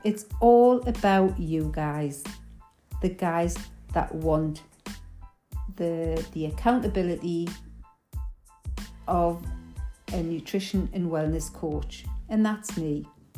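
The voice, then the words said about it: Geordie English accent. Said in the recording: “my Geordie accent, some people may find it a little bit difficult to understand the dialect.”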